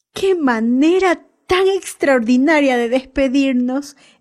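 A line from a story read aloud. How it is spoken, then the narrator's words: Eager exclamation. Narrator (Spanish): exclamó Jim, deseoso de descubrir lo que los aucas habían remitido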